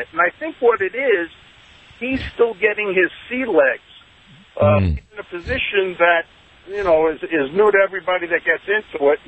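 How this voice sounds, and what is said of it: New York accent. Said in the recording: “I can hear in your accent, even though you're calling from Las Vegas, you're from New York, correct?”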